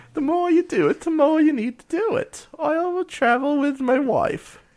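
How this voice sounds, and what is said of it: Sad, posh British put-on accent. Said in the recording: “picked up an accent that I can't quite determine ... sad, posh British ... I cannot hold an accent”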